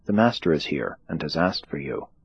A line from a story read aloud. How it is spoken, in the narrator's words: whispering to her sister, said